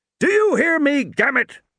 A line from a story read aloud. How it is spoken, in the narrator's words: Muldoon bellowed